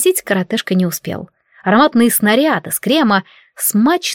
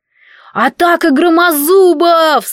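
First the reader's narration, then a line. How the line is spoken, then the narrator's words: Yell. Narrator (Russian): заорал Этельен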